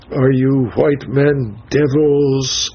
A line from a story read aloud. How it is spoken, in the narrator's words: said the old man at length, with a groan that seemed to burst from the bottom of his heart